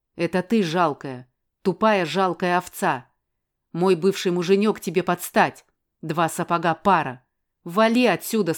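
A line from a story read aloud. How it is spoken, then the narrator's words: Plain. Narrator (Russian): сказала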